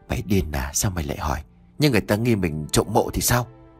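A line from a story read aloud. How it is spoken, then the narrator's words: Startled hushed snap. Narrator (Vietnamese): Lễ giật mình khẽ gắt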